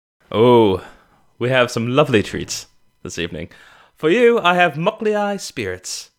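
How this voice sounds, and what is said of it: Put-on accent. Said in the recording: “I didn't expect us to keep doing the accent pass.”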